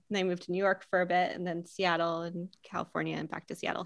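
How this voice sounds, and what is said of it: American accent with slight Pennsylvania tinge. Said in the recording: “My accent is a little bit all over the US. I'm originally from Pennsylvania. You can probably hear a little bit of PA in there.”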